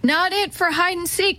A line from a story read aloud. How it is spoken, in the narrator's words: Teddy yelled